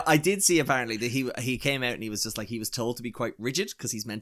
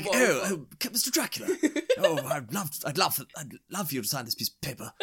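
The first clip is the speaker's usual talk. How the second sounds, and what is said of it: Bad British accent imitating an actor. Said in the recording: “the British Keanu Reeves impression ... It's just so bad.”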